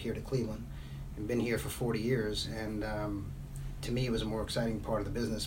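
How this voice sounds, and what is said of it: Brooklyn accent. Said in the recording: “my Brooklyn accent comes through ... traces ... Every now and then.”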